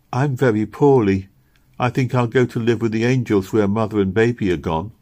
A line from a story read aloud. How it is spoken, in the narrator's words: said Robin, after she'd worn herself out with sobs and tears, and was lying silently beside the baby